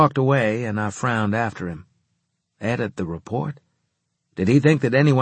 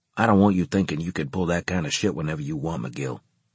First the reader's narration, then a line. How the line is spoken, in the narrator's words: he told me in a hushed tone